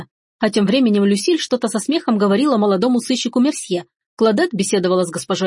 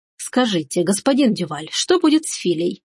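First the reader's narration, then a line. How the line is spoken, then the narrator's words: Quiet question. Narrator (Russian): тихонько спросила Рита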